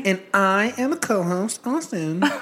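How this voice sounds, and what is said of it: Mocking imitation of the host's voice. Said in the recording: “I don't know why you're imitating me like that. It's quite rude.”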